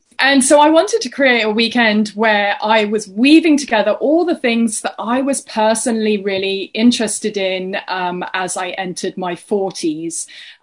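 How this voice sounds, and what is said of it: English accent. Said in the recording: “you can tell I've got an English accent”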